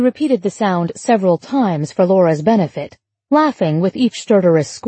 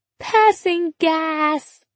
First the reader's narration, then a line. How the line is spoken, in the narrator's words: Emma squealed, seeming to find these words even funnier